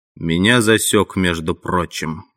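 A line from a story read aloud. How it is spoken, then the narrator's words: Gloomy bear voice. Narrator (Russian): мрачно говорил медведь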